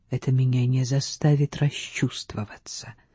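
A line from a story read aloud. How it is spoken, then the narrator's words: Whispered reply. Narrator (Russian): шепнула в ответ панна Рита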